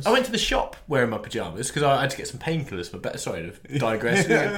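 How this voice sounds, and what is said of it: Slightly congested, under-the-weather voice. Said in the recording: “I've got a bit of a cold.”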